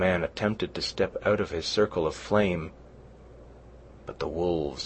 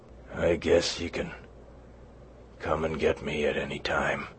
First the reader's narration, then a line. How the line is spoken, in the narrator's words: he mumbled